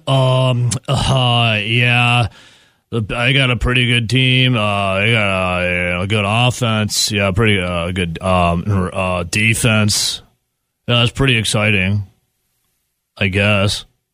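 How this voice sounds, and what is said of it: Flat, unenthusiastic mock delivery. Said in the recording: “hear the excitement in his voice, can't you? ... Does not sound thrilled”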